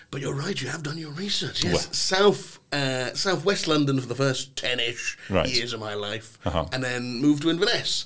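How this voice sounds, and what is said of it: Mixed Scottish and London accent. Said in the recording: “I can tell from your accent that you are from Inverness originally ... raised somewhere in southeast, I'm going to say southeast London ... The accent always bamboozles people”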